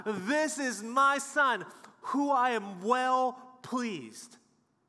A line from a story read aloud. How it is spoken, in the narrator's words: with delight, He shouts out